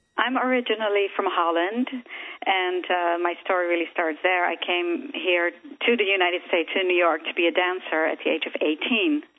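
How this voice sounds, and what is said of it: Slight Dutch accent. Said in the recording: “you got a little bit of an accent.”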